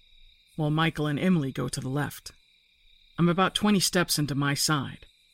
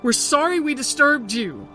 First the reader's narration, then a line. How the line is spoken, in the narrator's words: He screams into the woods